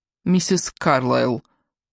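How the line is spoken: Dry smiling tone. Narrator (Russian): сухо улыбнулась Кора

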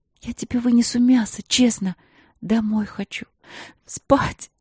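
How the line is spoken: Sobbing. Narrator (Russian): На последнем слове она снова всхлипнула

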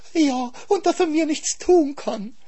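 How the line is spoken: Whining hare. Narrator (German): jammerte der Hase

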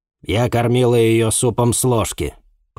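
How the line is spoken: Hesitant mutter. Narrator (Russian): помявшись, буркнула дежурная

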